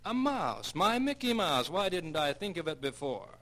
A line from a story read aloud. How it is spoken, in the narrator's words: he excitedly exclaimed